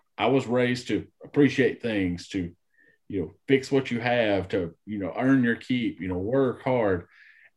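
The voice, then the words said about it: North Alabama Southern accent. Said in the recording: “You can tell this North Alabama accent runs real deep”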